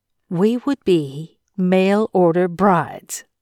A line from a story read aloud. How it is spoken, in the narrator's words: Charity said